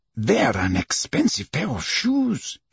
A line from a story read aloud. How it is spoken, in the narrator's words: muttered